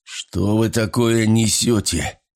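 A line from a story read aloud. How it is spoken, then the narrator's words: Hoarse blurt. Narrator (Russian): хрипло выпалил Вайланд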